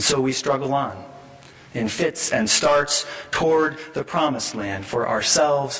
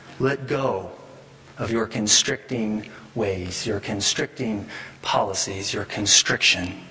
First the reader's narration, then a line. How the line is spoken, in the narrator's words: someone says to us, gently or not